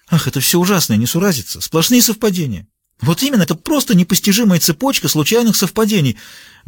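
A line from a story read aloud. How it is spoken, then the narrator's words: Trembling exclamation. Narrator (Russian): воскликнула Джуди дрогнувшим голосом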